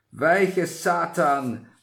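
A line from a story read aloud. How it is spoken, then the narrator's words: Sudden thundering voice. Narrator (German): näherte sich da plötzlich eine donnernde Stimme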